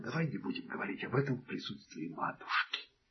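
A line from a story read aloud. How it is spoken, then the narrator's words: Whisper. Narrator (Russian): следователь счел нужным шепнуть другу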